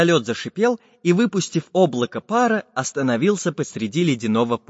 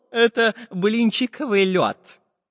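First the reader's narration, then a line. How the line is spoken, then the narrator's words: Laughing. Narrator (Russian): засмеялся географ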